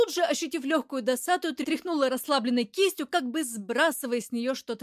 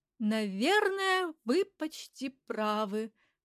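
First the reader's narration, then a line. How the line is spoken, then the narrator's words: Thoughtful drawl. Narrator (Russian): задумчиво протянула я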